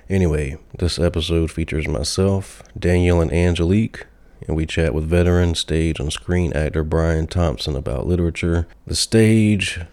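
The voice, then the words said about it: Sick, rough-sounding voice. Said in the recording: “apologize for my voice. I'm a bit under the weather.”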